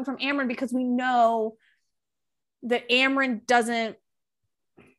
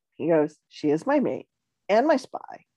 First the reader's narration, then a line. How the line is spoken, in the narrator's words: I said too quietly